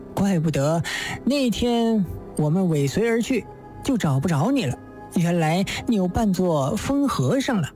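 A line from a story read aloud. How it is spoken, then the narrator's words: Laughing. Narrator (Chinese): 乔太笑道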